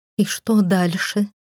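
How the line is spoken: Trembling voice, asking. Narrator (Russian): дрожащим голосом уточнила я

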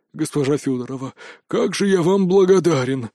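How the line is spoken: Relieved exhale. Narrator (Russian): с облегчением выдохнул грызун

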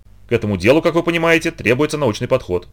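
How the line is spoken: Hurried male addition. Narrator (Russian): торопливо добавил он

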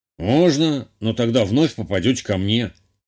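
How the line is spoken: Snorting. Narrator (Russian): хмыкнул целитель

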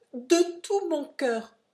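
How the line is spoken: Exclaimed. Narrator (French): s'écria Silas

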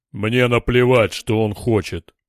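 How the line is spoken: Roared. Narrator (Russian): проревел Дор

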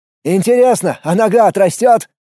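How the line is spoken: Shouting. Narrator (Russian): крикнул Влад

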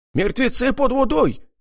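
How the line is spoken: Shouting. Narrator (Russian): закричал Аким

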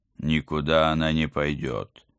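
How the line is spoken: Growling husband. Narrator (Russian): зарычал мой муж

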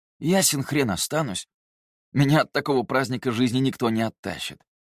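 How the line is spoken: Smirking. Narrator (Russian): хмыкнул Терций

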